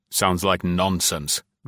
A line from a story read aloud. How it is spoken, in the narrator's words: growled the renegade